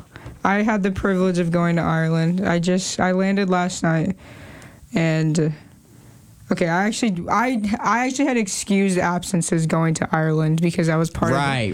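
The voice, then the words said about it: Hoarse, nearly lost voice. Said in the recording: “My voice is gone. ... explain why my voice is gone? ... There was a lot of yelling involved.”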